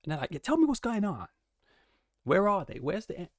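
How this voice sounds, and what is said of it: Attempted American accent, poorly done. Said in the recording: “I can't do the American accent ... I can't even do the American accent”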